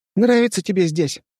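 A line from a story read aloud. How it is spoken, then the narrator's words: Squeaky voice. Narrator (Russian): спросил он своим писклявым голосом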